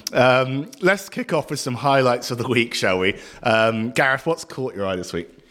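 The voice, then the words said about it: Hoarse, partly lost voice. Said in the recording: “My voice is slightly gone”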